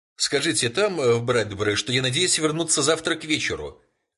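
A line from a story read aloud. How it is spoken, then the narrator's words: Shout. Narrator (Russian): крикнул Фелпс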